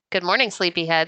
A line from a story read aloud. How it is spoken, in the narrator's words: said Ma